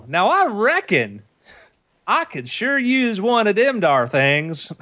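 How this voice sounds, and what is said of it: Poor put-on Southern US accent. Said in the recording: “although you were born in Opelika, Alabama, your accent sucks”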